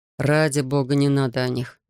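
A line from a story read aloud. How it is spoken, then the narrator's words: Moaning. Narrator (Russian): простонал Дэймон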